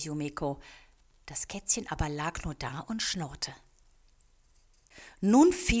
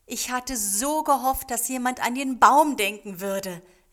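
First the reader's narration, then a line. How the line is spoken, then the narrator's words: Called out. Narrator (German): rief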